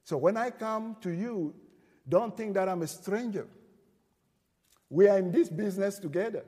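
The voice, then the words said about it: Noticeable foreign accent. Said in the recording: “I have some crazy accent and you don't.”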